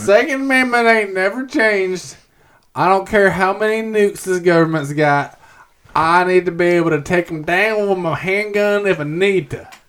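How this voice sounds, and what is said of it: Put-on Southern American accent. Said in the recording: “Just default Southern accent.”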